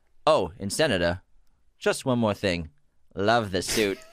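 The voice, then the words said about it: Hannibal Lecter impression. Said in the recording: “Good impression. ... That was good, Lecter.”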